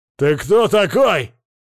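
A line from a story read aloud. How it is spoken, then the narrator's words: Man shouting. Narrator (Russian): закричал мужик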